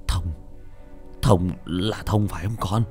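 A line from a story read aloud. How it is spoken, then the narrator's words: Startled stammering. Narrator (Vietnamese): Ông trà giật mình, ông ta lắp bắp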